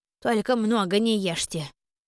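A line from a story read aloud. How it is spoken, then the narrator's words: Good-natured grumbling. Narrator (Russian): добродушно ворчала Клара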